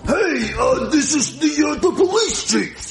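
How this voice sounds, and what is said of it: Different, sick-sounding voice. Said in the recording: “Are you sick? ... You sound different.”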